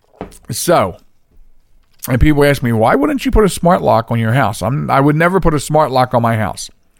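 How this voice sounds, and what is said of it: Voice rough and congested. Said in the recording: “excuse my voice a little bit because I am getting over a cold... the lagging head cold”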